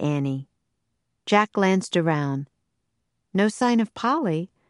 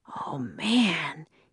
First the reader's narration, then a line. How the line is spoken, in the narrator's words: he breathed